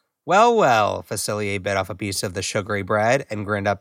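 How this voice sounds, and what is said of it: Usual voice. Nothing is said of it.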